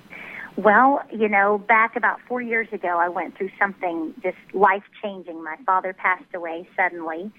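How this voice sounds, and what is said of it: Mild Southern US accent. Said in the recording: “I expected a heavier accent because you were from Texas, but it's really not bad ... I grew up in Tennessee, so it's kind of a mixture ... I like the southern accent”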